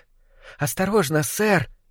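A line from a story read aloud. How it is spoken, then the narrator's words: Young rat's squeak. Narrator (Russian): пискнул один из крысят помоложе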